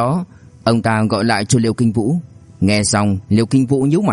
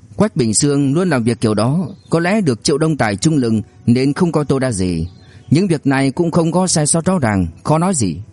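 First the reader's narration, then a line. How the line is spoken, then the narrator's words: Sighing. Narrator (Vietnamese): Liêu Hoa Giang thở dài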